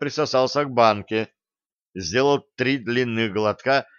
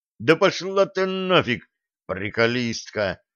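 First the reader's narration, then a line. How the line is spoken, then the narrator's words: Groaning. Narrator (Russian): простонал Блад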